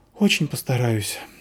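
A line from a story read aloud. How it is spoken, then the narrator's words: Sighed. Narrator (Russian): вздохнула Заверушка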